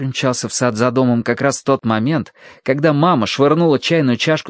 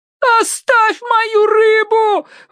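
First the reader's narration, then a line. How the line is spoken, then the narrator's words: Mother yelling. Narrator (Russian): вопила мама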